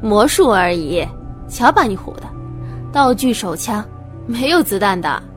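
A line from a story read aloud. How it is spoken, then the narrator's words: Hearty laughter. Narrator (Chinese): 魔术师朋友哈哈大笑道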